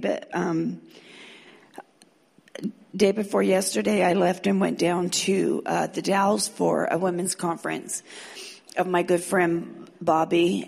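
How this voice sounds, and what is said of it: Sore, strained throat voice. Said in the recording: “I have a little bit of a sore throat, so I hope you guys can understand me”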